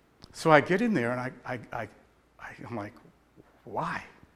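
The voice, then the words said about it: Emotional, choked-up voice. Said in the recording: “I get a little emotional”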